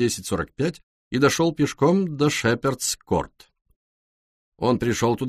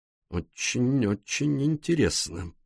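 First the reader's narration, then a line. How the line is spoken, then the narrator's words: Mutter. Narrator (Russian): пробормотал Пуаро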